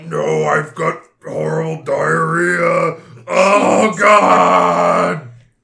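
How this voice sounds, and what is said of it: Rough, unwell, monster-like voice. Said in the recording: “you don't sound so good today ... her Sweetums impression.”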